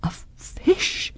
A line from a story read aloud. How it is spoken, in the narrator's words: cried